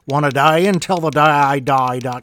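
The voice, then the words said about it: Bad put-on Australian accent. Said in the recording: “if I wanted to sound like an Australian... My God, that's a horrible accent.”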